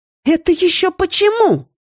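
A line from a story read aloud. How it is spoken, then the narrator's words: More indignant question. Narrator (Russian): спросила я еще более возмущенно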